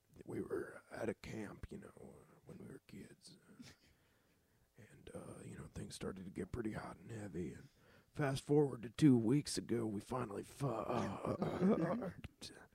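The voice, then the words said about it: Imitates another person's voice. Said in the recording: “That was my impression of the guy ... He was doing Aaron Gillespie with like a Tom Hanks voice ... Tom Waits voice”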